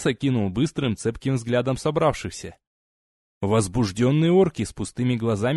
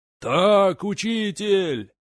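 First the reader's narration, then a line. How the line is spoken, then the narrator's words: Crowd yelling again. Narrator (Russian): снова завопила толпа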